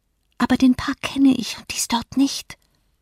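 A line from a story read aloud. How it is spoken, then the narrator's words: Whisper. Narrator (German): flüsterte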